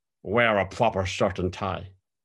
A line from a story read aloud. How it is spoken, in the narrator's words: Rambo growled at me